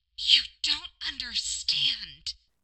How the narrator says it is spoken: Marinette hissed

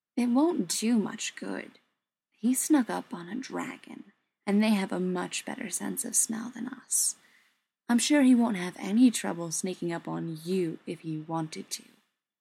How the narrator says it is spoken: Frodo added, his tone thoughtful

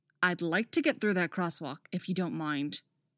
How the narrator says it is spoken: Artemis grumbles

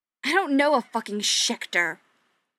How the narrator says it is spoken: Patrick snarled

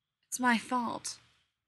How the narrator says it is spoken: the older brother, Michael, said miserably

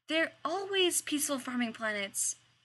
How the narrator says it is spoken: Rodney exclaimed

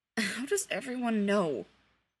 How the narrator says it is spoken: Peter smiled, weakly

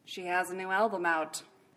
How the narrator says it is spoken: Batman said dryly, as if the explanation helped

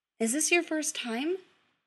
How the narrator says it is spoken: he asks gently

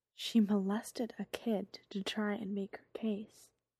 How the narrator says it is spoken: the administrator says quietly

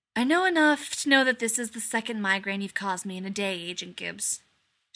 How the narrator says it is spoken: Shepard sighed

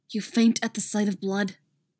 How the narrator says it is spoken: his own voice hissing

